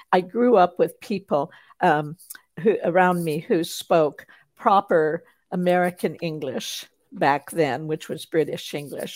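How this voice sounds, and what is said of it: Carefully enunciated, foreign-sounding speech. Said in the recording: “people have wondered, you know, if I was from another country because I have an accent, they tell me. But it's basically that I enunciate.”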